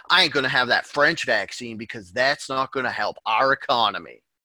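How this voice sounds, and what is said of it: Put-on American accent. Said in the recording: “that's how all American people speak ... So I can do that accent ... You're accurate.”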